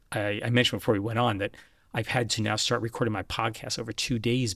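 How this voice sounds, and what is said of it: Weak, failing voice. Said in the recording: “losing my voice ... I'm losing the strength of my voice”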